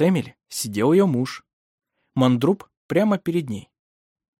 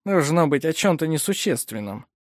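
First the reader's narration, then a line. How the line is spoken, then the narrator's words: Muttered. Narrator (Russian): пробормотал Мандруп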